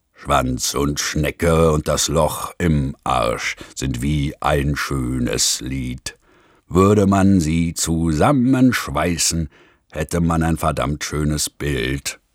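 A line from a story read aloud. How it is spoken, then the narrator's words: Rough-voiced singing. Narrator (German): fing ohne Vorwarnung an, mit rauer Stimme zu singen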